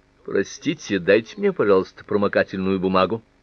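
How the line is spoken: Cold reply. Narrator (Russian): Анетта холодно ответила

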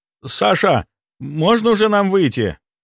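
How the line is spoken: Shouting. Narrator (Russian): прокричал Дима

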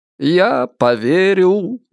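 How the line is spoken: Cheerful singsong. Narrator (Russian): весело пропел Ричард

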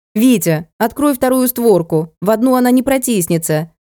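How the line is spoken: Shouting. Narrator (Russian): крикнула сообразительная Машка охраннику

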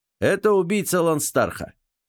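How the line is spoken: Loud. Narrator (Russian): громко произнес

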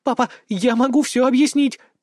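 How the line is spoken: Squeak. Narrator (Russian): пискнула Элойна

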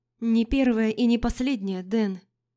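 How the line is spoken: Sigh. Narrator (Russian): вздохнула она

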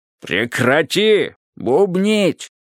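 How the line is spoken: Roaring triple voice. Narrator (Russian): проревели все три ее голоса

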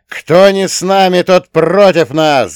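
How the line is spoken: Roar. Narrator (Russian): взревел я

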